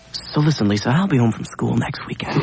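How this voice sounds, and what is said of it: Whispering. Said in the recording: “That's why I'm whispering.”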